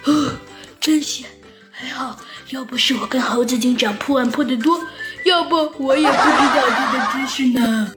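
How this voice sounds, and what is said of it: Quiet relieved whisper. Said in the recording (Chinese): “小声的、长长的舒了一口气”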